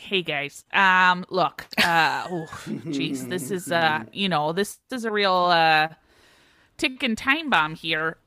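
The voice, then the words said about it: Put-on Minnesota accent. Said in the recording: “I have to do a Minnesota accent.”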